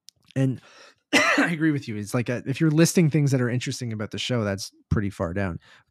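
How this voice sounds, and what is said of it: Strained, fading hoarse voice. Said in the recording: “My throat, my voice is going.”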